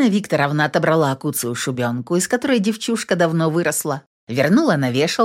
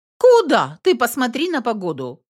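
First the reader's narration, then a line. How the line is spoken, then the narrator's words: Exclaiming. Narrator (Russian): воскликнула Елена Викторовна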